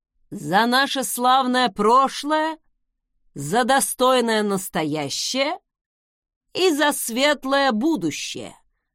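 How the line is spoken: Loud, father speaking. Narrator (Russian): громко произнес отец

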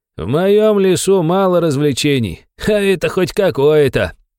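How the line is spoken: Old man laughing. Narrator (Russian): рассмеялся старик

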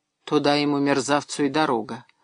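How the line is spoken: Calm. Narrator (Russian): спокойно сказала женщина

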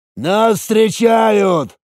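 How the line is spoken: Shouted. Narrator (Russian): крикнул Ган

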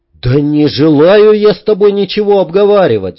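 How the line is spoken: Sudden yell. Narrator (Russian): вдруг заорал Йенс добавил еще более громким голосом

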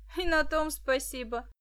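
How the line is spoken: Laughing. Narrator (Russian): засмеялся Денис

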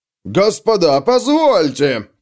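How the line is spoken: Shouted. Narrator (Russian): крикнул кто-то

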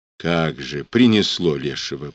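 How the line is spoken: Muttering. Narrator (Russian): пробормотала Ефросинья

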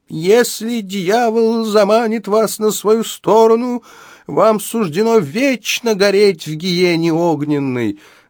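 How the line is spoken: Preacher's yell. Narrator (Russian): завопил преподобный

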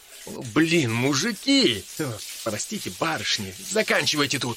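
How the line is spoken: Stammering, embarrassed. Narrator (Russian): произнес он, запинаясь и краснея

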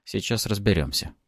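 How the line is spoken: Muttering. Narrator (Russian): пробормотал

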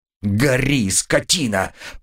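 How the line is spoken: Angry growl. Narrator (Russian): прорычал я, ощущая, как откуда-то изнутри меня окатывает горячая волна гнева

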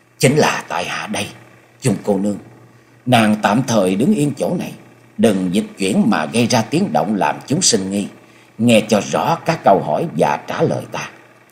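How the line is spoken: Low, restrained voice. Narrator (Vietnamese): Cố gắng đè nén cảm xúc ở trong lòng, Nhậm Sương Bạch hạ giọng nói

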